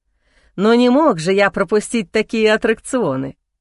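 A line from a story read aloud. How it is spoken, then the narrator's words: Laughing. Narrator (Russian): смеясь, ответил Чернов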